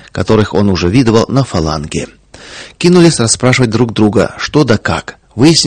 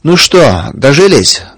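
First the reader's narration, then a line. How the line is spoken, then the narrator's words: Rough question. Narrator (Russian): грубо спросил он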